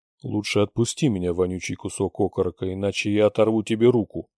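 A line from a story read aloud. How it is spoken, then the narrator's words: Menacing bark. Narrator (Russian): грозно рявкнул Рэй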